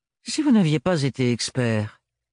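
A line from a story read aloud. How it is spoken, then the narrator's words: Nonchalant reply. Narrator (French): répondit Archibald d'un ton nonchalant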